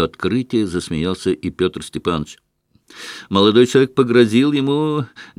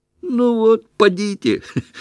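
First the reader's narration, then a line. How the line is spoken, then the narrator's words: Laughing. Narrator (Russian): рассмеялся Петр Степанович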